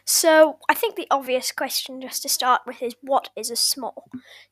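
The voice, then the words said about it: Irish accent. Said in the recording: “you can tell by my accent. I'm Irish, but I live in England”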